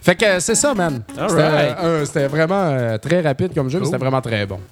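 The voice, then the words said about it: Quebec Beauce French accent. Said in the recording (French): “mon accent style Québec-Beauceron ... je suis pas capable de casser mon accent”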